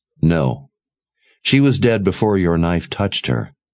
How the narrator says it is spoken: Kaelin said

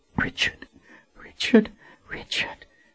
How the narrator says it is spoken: she whispered

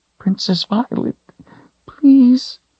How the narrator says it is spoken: she whined

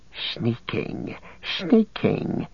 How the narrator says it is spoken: he hissed

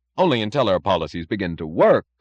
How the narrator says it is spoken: cried Dr

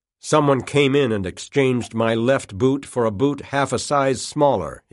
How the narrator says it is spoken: he said

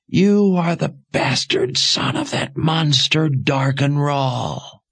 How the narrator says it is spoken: wailed

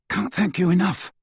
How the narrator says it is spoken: said Ron shakily

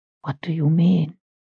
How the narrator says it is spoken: She asked, in a low rasp

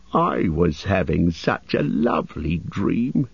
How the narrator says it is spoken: he grumbled

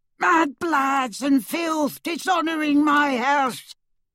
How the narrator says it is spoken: she began to scream

